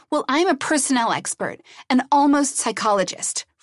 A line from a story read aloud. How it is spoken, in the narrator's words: Frask shouted